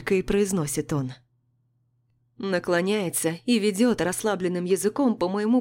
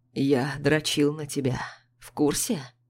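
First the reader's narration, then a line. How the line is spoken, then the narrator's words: Hoarse question. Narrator (Russian): спрашивает хриплым голосом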